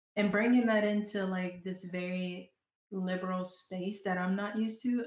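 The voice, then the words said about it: Southern US accent. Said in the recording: “I'm such a Southern girl. I don't know if y'all can hear my accent come out every now and then.”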